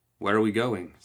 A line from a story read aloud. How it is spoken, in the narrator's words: Sandeep asked